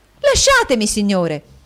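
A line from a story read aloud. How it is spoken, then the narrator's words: Angry woman exclaiming. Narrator (Italian): ella esclamò col cuore gonfio di collera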